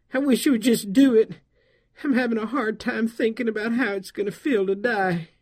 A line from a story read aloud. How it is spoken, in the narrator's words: pleaded